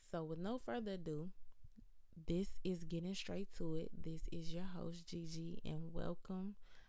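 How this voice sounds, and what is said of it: Raspy, tired voice. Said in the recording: “My voice is all raspy. I've been talking all day.”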